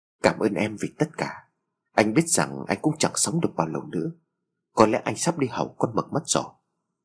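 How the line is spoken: Whispered. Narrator (Vietnamese): Phát thì thào lên tiếng

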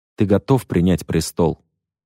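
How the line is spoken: Quiet question. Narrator (Russian): тихо спросил

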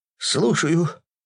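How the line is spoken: Trembling voice. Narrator (Russian): дрогнувшим голосом ответил он

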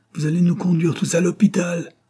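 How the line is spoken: Shouted. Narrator (French): criait

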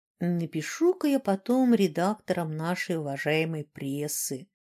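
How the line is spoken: Drawling. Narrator (Russian): протянул Динар

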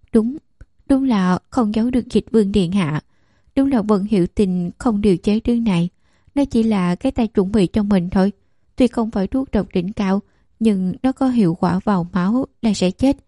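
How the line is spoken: Sudden smile. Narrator (Vietnamese): Nàng ta bỗng mỉm cười nói

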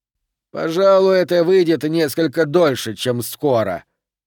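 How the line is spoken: Grumbling. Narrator (Russian): проворчал Колб

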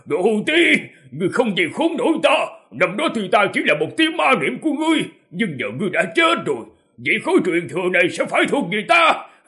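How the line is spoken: Mad laughing scream. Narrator (Vietnamese): Hồng Phát Nam Tử đứng trên tử hải, ngửa mặt nhìn trời cuồng tiếu, ông ta thét lên

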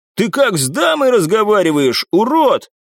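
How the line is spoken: Loud shout. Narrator (Russian): громко крикнул

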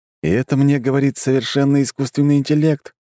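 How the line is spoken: Sigh. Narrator (Russian): вздохнул я

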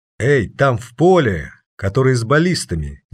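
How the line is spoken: Commanding voice. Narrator (Russian): продолжил командным голосом Вилга

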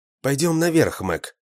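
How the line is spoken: Soft. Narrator (Russian): мягко сказал

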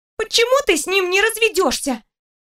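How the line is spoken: Exclaiming after brief silence. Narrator (Russian): После недолгого молчания воскликнула Даша

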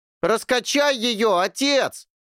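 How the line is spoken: Shouted, young man. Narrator (Russian): крикнул один из парней

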